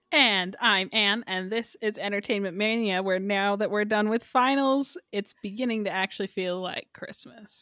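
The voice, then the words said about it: Sick, weird-sounding voice. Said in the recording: “I'm sick again. My voice is going to sound weird this episode.”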